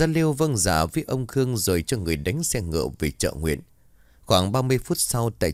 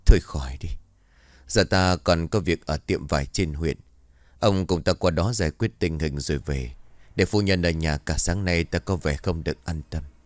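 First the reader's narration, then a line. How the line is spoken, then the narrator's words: Dejected sigh. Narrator (Vietnamese): Ông Khương lúc này tinh thần xuống rất nhiều, ông thở dài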